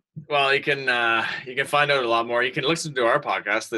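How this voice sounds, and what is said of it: Speaks with a noticeable accent. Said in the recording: “hear your awesome accent some more”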